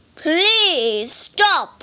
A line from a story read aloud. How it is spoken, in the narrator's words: cried the judge of the dead